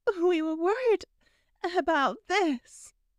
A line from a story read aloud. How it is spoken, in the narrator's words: Pansy said between sobs